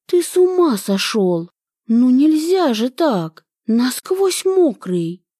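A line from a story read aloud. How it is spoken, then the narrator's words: Exclaiming. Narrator (Russian): Воскликнула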